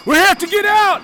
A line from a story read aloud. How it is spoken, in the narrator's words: I shouted to my wife